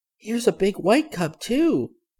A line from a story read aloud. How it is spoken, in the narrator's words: she said happily